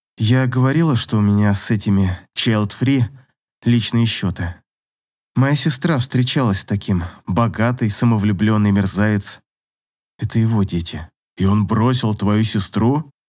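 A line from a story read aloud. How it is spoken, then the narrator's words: Muffled voice. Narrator (Russian): Голос Клима звучал глухо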